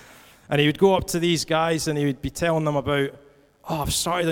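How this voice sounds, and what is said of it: Usual voice. Nothing is said of it.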